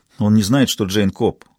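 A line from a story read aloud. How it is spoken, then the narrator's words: Plain. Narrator (Russian): сказал Мур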